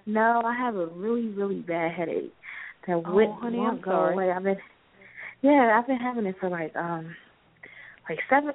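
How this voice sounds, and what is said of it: Shaky voice. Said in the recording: “Your voice is a little shaky.”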